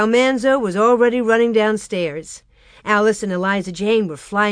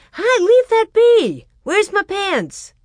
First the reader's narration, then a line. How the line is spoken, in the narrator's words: Royal shouted